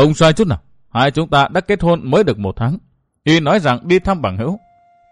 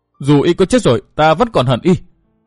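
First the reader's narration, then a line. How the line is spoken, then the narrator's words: Tearful, roaring hatred. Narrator (Vietnamese): Nước mắt của Hắc Phong nữ Tiêu Như Anh lại chảy ròng ròng xuống, gầm thét nói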